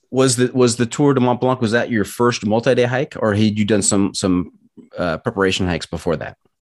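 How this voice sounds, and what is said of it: Heavy American accent. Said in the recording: “my heavy American accent”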